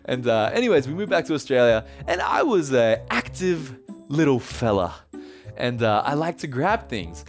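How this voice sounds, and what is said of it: Australian accent. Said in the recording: “my parents and I moved back to Australia, as you can tell from the accent, I hope.”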